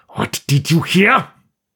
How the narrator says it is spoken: fairly snarled

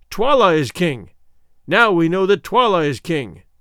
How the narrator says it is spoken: the people, being fickle, cried

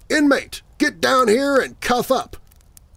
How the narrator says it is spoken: yelling

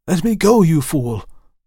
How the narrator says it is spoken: I gasped

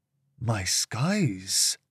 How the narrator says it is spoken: muttered Zadok

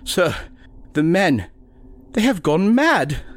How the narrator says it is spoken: the doctor whimpered

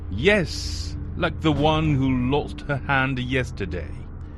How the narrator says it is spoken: The governor chuckled louder and louder and replied

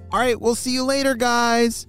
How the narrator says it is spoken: shouted Momo

